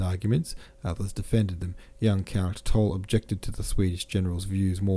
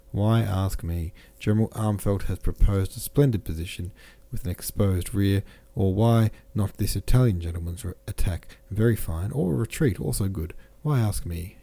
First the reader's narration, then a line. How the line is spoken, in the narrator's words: said he